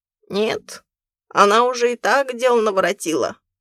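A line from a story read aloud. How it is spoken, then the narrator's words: Old man grumbling. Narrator (Russian): проворчал старик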